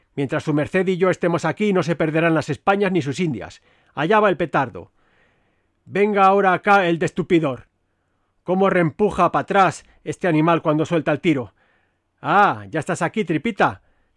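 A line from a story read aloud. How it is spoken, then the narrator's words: Shouted. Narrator (Spanish): gritó al verme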